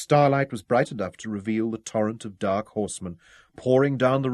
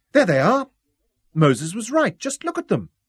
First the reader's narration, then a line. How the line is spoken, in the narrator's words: she exclaimed